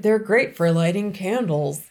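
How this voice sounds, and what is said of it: Imitates another person's voice. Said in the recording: “a good Martha impression ... That was a really good Martha impression.”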